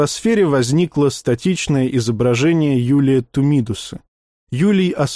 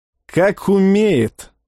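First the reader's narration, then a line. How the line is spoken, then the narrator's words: Snorted. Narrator (Russian): хмыкнул Пак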